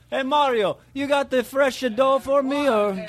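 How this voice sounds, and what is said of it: Bad put-on Italian accent. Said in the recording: “your Italian accent was horrible. Mine was deplorable.”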